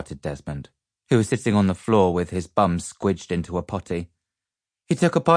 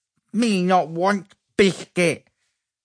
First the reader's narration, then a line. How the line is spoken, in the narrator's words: he spluttered, spraying bits of biscuit